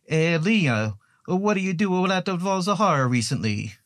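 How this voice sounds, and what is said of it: Bad put-on Italian accent. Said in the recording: “a horrifying Italian accent”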